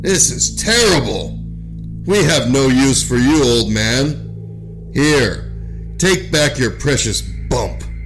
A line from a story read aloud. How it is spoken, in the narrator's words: they scowled and frowned and called out